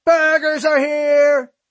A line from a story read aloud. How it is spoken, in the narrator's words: I yelled for him